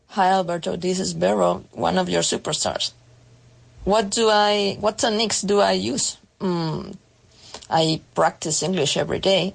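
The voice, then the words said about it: Non-native English accent, nearly native. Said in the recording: “you almost sound native ... lovely accent”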